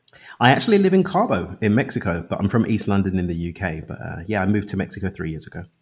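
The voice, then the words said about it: London accent. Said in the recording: “That's not a Mexican accent ... I can tell a London accent from a Mexican accent.”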